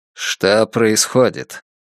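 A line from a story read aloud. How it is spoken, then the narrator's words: Repeated mutter. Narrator (Russian): Уже как минимум в третий раз пробормотал Систранг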